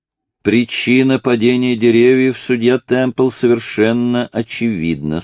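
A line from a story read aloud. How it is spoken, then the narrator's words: Plain. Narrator (Russian): сказал шериф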